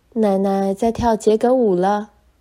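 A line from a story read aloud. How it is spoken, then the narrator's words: Joyful crowd shouting. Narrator (Chinese): 每个人都高兴地叫起来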